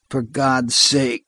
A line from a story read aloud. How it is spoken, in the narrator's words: groaned Vic